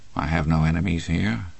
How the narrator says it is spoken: he said quietly

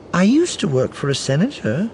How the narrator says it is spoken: Arinda said brightly

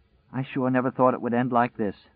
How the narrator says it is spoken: With a sigh that was more than half a sob, said

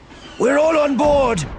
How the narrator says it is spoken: So shouted down from the walker

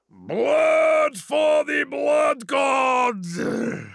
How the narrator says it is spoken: thundered

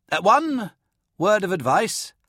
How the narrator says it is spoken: Hark shouted over the hooting and thumping

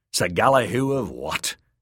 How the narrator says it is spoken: he snorted

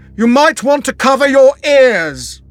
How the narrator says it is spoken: he shouted over

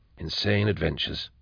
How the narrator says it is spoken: murmured Drusha

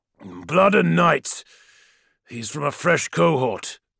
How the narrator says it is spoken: growled a voice from above him

